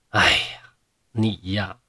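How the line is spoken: Sighing. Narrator (Chinese): 莲香叹了口气说

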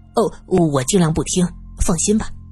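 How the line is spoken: Nonstop muttering. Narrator (Chinese): 杜明 嘴里不停的说道

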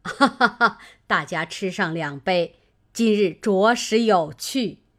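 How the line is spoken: Laughing. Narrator (Chinese): 贾母笑道

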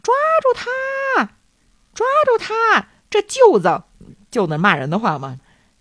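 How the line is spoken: Guard shouting while running. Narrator (Chinese): 这巡逻的警卫一边跑一边喊

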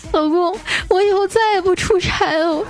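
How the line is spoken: Crying while speaking. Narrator (Chinese): 一边哭说

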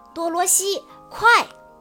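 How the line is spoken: Loud shout. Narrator (Chinese): 小矮人奥兹高声地叫道

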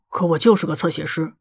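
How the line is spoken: Muttering. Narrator (Chinese): 陆小西嘟囔了一句

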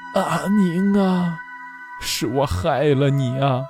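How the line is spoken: Tearful, sighing. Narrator (Chinese): 徐叔从眼眶里掉下几滴浊泪，徐叔在叹息中

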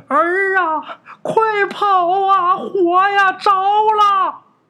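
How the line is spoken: Old woman's frantic shout. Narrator (Chinese): 老太太在这喊着，这牙也咬的嘎吱嘎吱响啊

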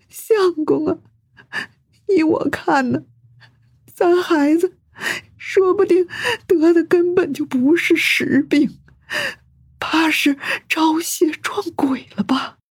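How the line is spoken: Quiet, fearful. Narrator (Chinese): 刘夫人说话的声音很小，因为她知道自己的丈夫是孔门弟子，说这些话很可能会招来丈夫训斥

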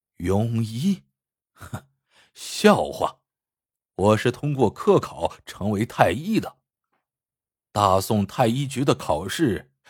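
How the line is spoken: Sneering scornfully. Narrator (Chinese): 王太医冷笑道

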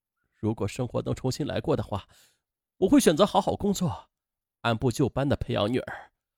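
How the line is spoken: Sobbing bitterly. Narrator (Chinese): 他才痛哭失声

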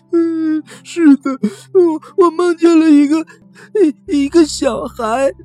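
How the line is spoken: Crying. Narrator (Chinese): 小怪物比利哭着说

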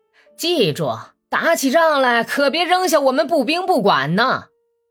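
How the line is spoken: Several soldiers shouting. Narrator (Chinese): 步兵队伍里面有几个人喊

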